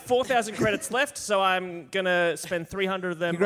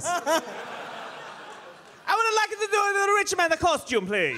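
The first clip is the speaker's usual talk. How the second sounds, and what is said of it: Put-on comic foreign accent. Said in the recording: “Why am I doing the voice? I don't have to do the voice... I'm not going to do this voice anymore.”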